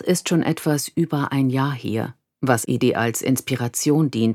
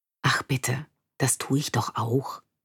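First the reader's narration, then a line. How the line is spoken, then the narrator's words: Whispered reply. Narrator (German): flüstere zurück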